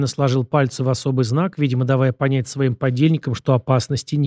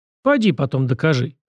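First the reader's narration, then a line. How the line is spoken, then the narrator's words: Skeptical snort. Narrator (Russian): хмыкнул гость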